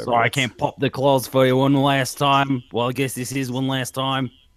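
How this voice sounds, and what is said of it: Australian accent, imitates another person's voice. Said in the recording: “I cannot do an Australian accent whatsoever ... That is Hugh Jackman again. Here I am, signing off on Wolverine.”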